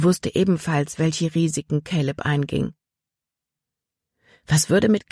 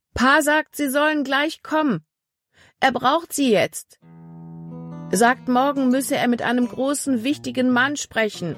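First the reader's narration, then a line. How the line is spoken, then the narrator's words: Calling across a distance. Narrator (German): rief ihnen vom anderen Ufer des Baches aus zu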